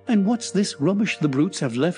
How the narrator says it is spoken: he cried

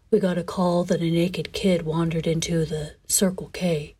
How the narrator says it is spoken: continued in a monotone

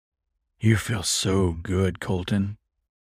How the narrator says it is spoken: said huskily

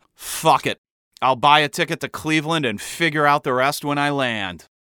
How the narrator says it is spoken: sighing and saying

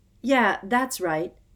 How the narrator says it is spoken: Harry found himself shouting, having had just about enough

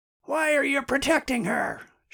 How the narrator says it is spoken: shouted someone

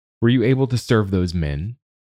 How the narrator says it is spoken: Bump asks

